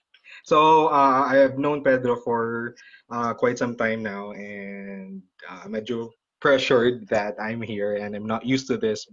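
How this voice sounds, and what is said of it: Speaks English with an accent. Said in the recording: “Could you hear that accent? That is really nice”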